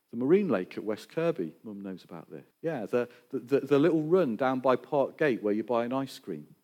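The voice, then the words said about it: Mixed Northwest English Scouse accent. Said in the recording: “I'm originally from the Northwest, if you were trying to guess my accent. It's a little bit confused, but I was a Scouser originally”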